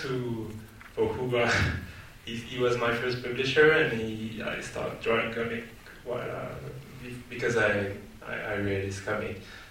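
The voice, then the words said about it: French accent. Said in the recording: “my charming French accent”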